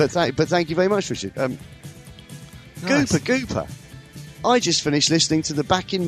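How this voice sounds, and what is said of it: Usual voice. Nothing is said of it.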